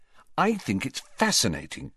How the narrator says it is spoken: said Hermione earnestly

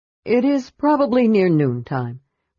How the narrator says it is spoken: returned Caramon wearily

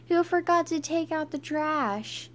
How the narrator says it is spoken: Everybody yelled

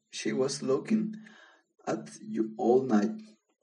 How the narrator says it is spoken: the prince laughed

